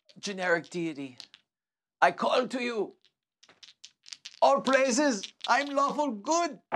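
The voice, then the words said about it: Put-on non-American character accent. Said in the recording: “like a Hindu, right?... My voice is not. I'm not Indian. It's just not American... I could be Middle Eastern.”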